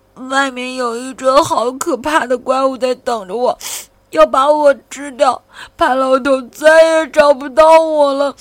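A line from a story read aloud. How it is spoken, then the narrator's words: Sobbing. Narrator (Chinese): 菲菲抽泣着说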